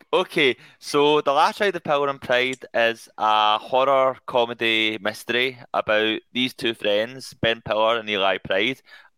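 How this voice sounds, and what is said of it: Strong accent, hard to understand. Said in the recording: “you won't understand it because it's this accent.”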